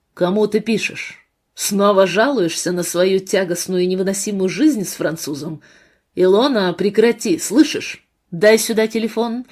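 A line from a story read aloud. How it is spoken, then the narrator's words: Stern command. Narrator (Russian): суровым тоном приказал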